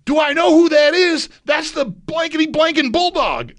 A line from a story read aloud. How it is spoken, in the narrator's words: Thurman in this packed bar yelled out